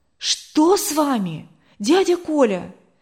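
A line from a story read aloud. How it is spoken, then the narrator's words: Frightened question. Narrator (Russian): спросила испуганно Валентина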